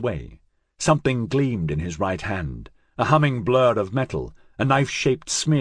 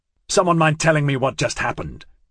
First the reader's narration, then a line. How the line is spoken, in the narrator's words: Scorpio snapped